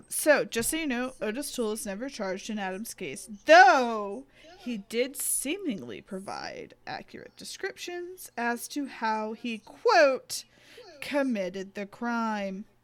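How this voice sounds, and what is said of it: Mock newscaster voice. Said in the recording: “That's my newscaster voice.”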